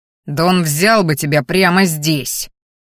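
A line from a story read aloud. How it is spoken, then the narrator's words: Warning growl. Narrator (Russian): рыкнул предостерегающе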